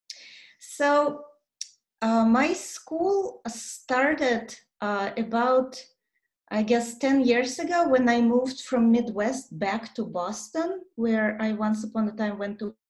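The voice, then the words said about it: Russian-accented English. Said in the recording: “she has an amazing accent because she's from Soviet Union”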